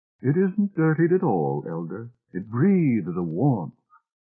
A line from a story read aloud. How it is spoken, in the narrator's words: She said warmly